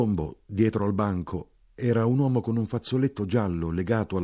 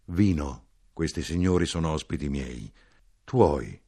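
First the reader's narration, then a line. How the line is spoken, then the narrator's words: Gentle protest. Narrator (Italian): protestò dolcemente l'uomo Porfirio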